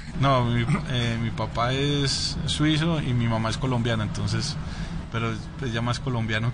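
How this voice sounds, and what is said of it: Colombian Spanish accent. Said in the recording (Spanish): “el acento... un acento más colombiano”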